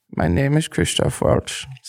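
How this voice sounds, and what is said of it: Soft-spoken imitation of another person's voice. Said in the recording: “he just has like that real like soft kind of ... See, I nailed it. ... Yeah, you nailed it.”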